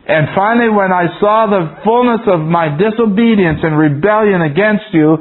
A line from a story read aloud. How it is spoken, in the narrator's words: I cried and I asked forgiveness